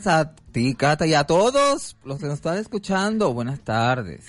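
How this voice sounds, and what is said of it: Odd mixed Latin American-Spanish accent. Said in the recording (Spanish): “Tienes un acento ahí medio raro ... sacaste un acento entre eh, colombiano, cubano, venezolano, canario, peninsular, que no te entiendo”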